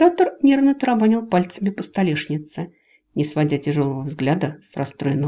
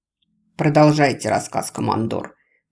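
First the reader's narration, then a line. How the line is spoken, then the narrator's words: Through gritted teeth. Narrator (Russian): процедил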